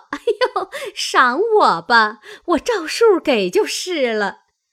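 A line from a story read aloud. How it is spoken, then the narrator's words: Laughing. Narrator (Chinese): 凤姐儿笑道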